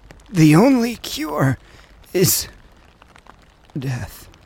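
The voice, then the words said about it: Weak, fading voice. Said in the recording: “in a weakening voice”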